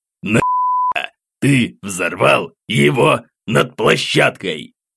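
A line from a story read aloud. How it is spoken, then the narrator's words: Menacing growl. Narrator (Russian): Грозно рыкнул дядя Витя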